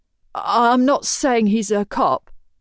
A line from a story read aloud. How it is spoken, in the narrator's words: Shenton stutters